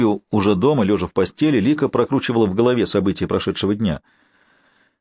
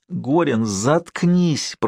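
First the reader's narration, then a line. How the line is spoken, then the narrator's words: Embarrassed moan. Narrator (Russian): простонала она, чувствуя, как начинают гореть щеки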